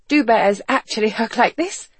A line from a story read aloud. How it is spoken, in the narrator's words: she asked breathlessly